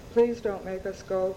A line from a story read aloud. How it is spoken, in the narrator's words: I said in a subdued, quiet voice, more to myself